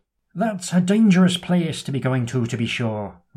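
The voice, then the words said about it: Exaggerated comedy Irish accent. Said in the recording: “my grotesque butchering of a comedy Irish accent”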